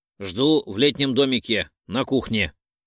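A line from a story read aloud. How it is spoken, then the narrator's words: Peremptory growl. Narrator (Russian): Безапелляционно рыкнул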